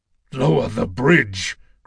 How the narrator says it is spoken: Kratos growled

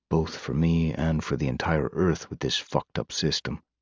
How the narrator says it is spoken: Randidly sighed

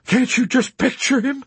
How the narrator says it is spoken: He exclaimed with amazement

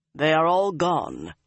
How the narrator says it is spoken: Lan announced grimly

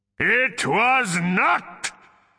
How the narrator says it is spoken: came the answering bellow

